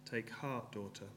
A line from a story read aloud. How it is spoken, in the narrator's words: he said